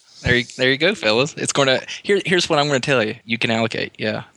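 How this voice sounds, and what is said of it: Virginia accent. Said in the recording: “that sweet, sweet Virginia accent ... I just heard the voice”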